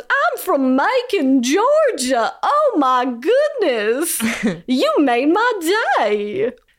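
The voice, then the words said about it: Comically exaggerated Southern accent. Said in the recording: “we get a comically southern accent.”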